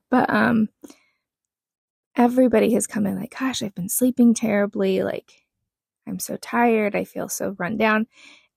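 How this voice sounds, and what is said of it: Groggy, just-woken-up voice. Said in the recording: “My voice is still waking up.”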